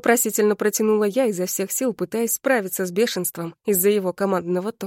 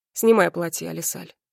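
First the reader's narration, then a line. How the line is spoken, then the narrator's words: Cold. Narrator (Russian): холодно произнес Рагнар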